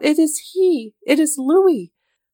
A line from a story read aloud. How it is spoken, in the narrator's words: cried out